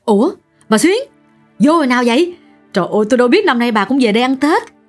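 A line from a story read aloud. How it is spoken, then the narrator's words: Excited young woman exclaiming. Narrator (Vietnamese): một người đàn bà trẻ cũng cỡ tuổi Xuyến hớn hở lao tới trước mặt và kêu lên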